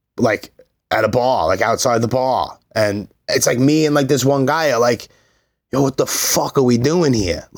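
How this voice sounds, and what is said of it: Loud Brooklyn accent. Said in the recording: “opinionated and loud with a Brooklyn accent”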